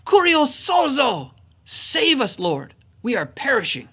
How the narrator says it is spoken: the disciples in the midst of a storm cried out, and they said

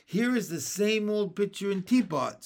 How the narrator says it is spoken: said Jesse, laughing

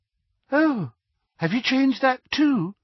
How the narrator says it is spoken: she asked brightly

